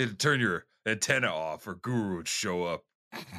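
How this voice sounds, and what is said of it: Usual voice. Nothing is said of it.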